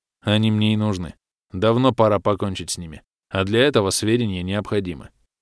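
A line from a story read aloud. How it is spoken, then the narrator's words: Calm. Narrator (Russian): спокойно пояснил офицер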